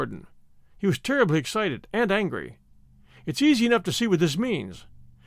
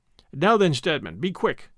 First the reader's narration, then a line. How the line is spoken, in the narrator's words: he said